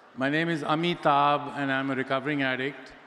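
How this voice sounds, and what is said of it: Speaks very slowly. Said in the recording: “I'm going to say it really slowly.”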